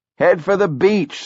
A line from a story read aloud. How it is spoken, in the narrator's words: someone shouted